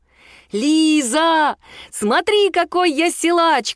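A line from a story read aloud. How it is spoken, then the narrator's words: Shouted. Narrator (Russian): крикнул Мишун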